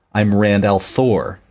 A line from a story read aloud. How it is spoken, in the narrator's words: he said harshly